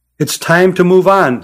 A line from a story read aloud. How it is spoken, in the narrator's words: said Deliani